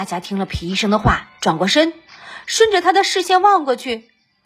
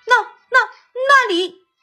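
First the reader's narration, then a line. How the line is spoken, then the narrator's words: Terrified shout. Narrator (Chinese): 皮医生惊恐的喊道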